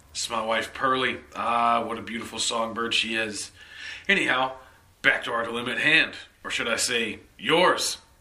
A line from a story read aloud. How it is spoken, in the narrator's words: He laughed